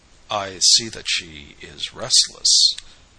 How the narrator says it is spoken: the painter spoke in a low tone, half hesitating

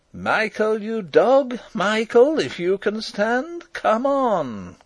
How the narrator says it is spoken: cried Rupert

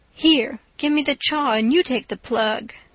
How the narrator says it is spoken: the one that owns the tobacco looks mournfully at it, says sarcastic

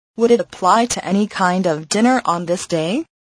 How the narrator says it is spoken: asked Scrooge

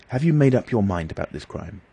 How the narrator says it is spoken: asked earnestly

